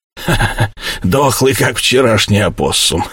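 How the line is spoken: Chainsaw-like chuckle. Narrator (Russian): согласился Сэм и хохотнул, как мотопила

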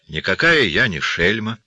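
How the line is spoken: Calm objection. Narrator (Russian): спокойно возразила Эльзи

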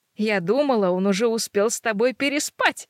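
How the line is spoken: Giggling. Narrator (Russian): хихикает она

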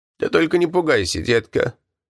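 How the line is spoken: Tearful, terrified old woman. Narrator (Russian): сказала старушка влажным голосом с призвуком подлинного ужаса

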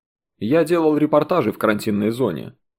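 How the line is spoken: Plain. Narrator (Russian): ответил Сергей

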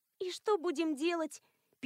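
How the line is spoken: Sad question. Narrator (Russian): печально спросила Элоиза

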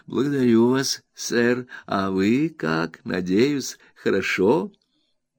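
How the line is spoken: Slow, embarrassed. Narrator (Russian): Неожиданное обращение незнакомца крайне его смутило, и он ответил, как всегда, медленно

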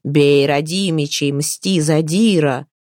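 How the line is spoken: Heated warriors shouting. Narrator (Russian): распаленные киевские дружинники кричали

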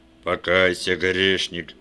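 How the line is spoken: Booming bass proclamation. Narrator (Russian): возгласил Иванов басом

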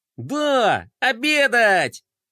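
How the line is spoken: Joyful child's shout. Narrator (Russian): радостно вскричал мальчик

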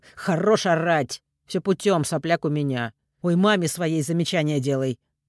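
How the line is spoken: Barking. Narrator (Russian): Рявкнул

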